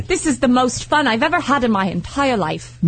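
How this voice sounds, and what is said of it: Put-on English accent. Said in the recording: “Why does she talk like she's English? ... I would totally come back with an accent.”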